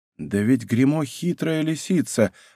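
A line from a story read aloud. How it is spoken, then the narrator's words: Undertone. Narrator (Russian): отвечал Мушкетон вполголоса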